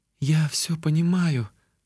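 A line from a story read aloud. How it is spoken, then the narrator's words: Girl's sigh. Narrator (Russian): вздохнула девушка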